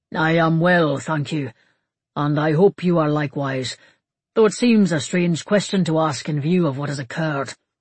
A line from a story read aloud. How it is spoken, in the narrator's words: the king said gravely